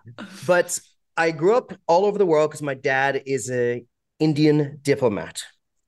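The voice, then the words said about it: American-sounding accent. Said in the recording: “I know I come across as American on the uh, audio waves”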